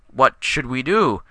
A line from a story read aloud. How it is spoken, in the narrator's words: asked Cormac, his voice wavering